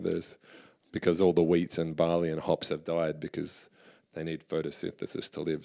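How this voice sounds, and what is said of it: Hoarse, strained voice. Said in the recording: “my voice is so wrecked ... I've had a cough since Milan, and I don't want to lose my voice”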